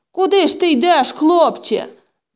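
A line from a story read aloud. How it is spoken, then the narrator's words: Uncle shouting. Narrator (Ukrainian): закричав дядько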